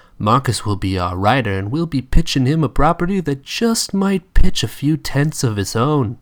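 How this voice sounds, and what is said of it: Sultry, seductive speaking voice. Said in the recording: “using my sexy voice”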